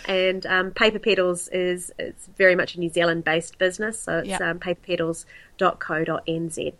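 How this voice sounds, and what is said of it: New Zealand accent. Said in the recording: “for those of you that aren't Kiwis and don't understand my accent”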